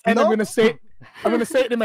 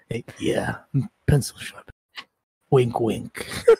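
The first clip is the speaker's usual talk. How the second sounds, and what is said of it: Seductive bedroom voice. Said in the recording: “in my bedroom voice, no? I'm gonna say it in my bedroom voice.”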